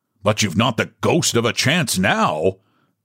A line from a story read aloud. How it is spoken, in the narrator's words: said Charles roughly